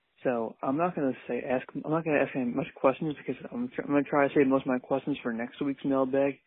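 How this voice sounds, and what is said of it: Quiet, half-whispered speech. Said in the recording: “If it sounds like I'm talking quiet ... So I'm trying to like kind of half whisper, half talk. So if it sounds a little weird, that's why”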